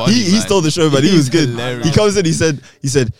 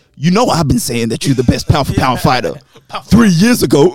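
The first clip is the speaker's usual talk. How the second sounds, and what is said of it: Imitates another person's voice. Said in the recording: “Great impression”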